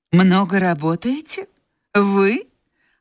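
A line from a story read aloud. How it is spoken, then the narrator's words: Laughing. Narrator (Russian): Она рассмеялась ему в лицо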